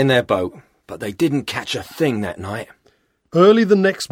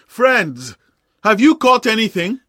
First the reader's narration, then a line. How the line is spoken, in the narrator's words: Jesus shouted